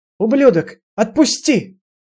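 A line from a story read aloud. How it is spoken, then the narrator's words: Furious screaming. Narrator (Russian): она яростно кричала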